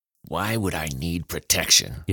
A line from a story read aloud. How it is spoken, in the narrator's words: he eventually muttered, struggling to keep control